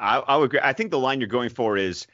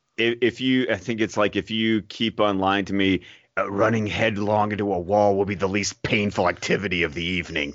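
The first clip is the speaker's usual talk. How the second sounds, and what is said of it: Batman voice impression. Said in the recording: “Good impression, by the way. That was good.”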